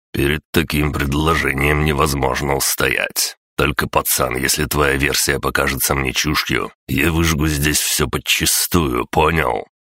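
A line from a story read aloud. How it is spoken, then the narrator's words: With a snort. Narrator (Russian): Он хмыкнул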